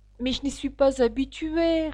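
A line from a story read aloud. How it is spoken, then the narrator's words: Pitiful reply. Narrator (French): répliqua Alice d'un ton piteux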